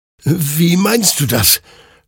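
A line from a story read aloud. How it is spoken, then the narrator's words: Confused stammering. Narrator (German): stammelte Hektor verwirrt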